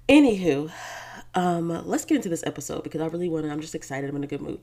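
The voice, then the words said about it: Slightly dry, rough voice. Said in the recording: “If I sound a little weird ... My throat, it's been a little bit dry ... a little bit of a weird dry throat situation happening”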